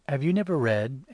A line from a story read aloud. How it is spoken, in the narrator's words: answered Jesus